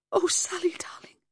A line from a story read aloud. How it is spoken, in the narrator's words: whispered and cried out